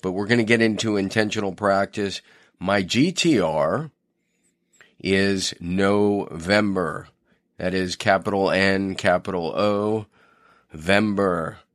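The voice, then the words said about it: Slightly worn, tired-sounding voice. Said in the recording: “my voice sounds a little funny, I've just been doing a lot ... a lot of talking lately ... Was a little bit run down”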